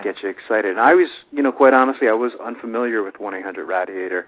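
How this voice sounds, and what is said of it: New York accent. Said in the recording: “I'm saying that wrong, too. I think I'm using my New York accent.”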